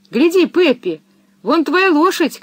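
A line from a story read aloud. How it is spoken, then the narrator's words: Shout. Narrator (Russian): крикнул Томми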